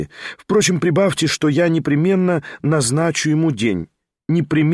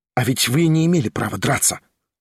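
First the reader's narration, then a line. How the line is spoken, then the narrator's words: Whispered. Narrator (Russian): шепнул он Ставрогину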